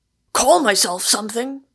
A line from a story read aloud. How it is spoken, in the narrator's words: thundered the obscure voice